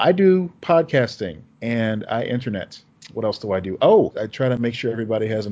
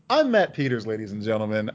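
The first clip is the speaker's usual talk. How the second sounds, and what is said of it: Voice goes really high. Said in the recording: “I do that thing where my voice gets really high when I introduce myself”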